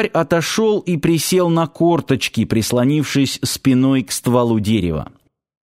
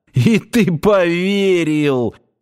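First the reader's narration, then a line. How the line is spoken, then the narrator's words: Exclaimed after laughing. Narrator (Russian): отсмеявшись, воскликнул он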